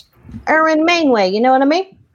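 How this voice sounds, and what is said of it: Erwin Mainway impression. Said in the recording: “does a Erwin Mainway impression”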